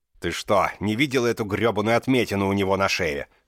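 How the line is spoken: Barked angrily. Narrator (Russian): рявкнул на нее Друпад

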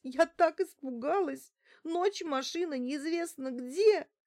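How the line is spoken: Sobbing. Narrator (Russian): доносились сквозь рыдание ее слова

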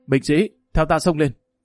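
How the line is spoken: Loud commanding call. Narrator (Vietnamese): Hồ Bất Quy lớn tiếng nói

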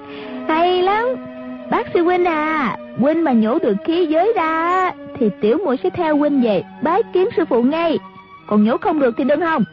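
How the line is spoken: Delighted cheering. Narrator (Vietnamese): A Tử reo lên

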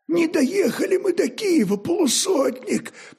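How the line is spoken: Hoarse rasp. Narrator (Russian): прохрипел Фокс

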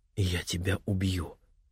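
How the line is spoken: Quiet but very distinct. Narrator (Russian): негромко, но очень отчетливо произнес Охаси

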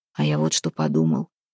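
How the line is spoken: Low voice. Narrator (Russian): вполголоса сказал Демка

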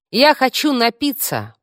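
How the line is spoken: Shout. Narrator (Russian): прокричала Таш

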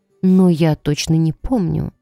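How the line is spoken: Sighing. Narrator (Russian): вздохнула мама

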